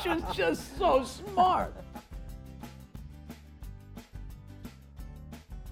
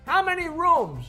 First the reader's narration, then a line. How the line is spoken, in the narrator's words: she yelled